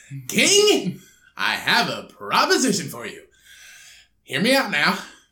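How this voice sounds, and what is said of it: Put-on southern accent. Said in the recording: “You're still going southern.”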